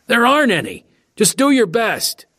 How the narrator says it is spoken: someone yelled back

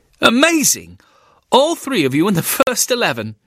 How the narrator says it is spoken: Cecil Polehill Turner exclaimed

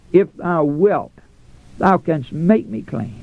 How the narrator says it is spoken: looking pleadingly into the Savior's face, he cries out

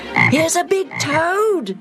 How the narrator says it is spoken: Agat yelled

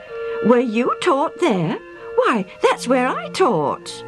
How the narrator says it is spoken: The older man exclaimed

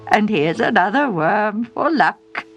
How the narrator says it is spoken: with a chuckle he said

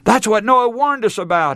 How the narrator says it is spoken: he cried

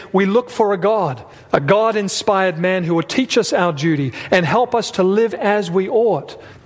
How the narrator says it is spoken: a wise man that lived many years ago, he cried out in his darkness and he said

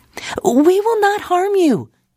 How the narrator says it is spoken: yelled

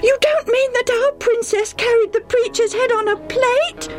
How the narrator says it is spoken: Debbie almost screamed

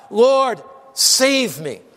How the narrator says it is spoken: beginning to sink, he cried out

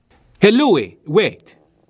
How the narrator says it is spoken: shouted after him

